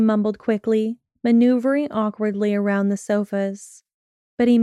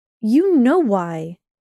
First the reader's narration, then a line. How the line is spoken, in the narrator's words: she snapped